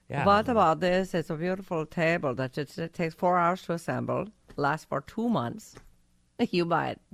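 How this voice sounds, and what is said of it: Unidentifiable put-on accent. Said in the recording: “I don't know what accent that was.”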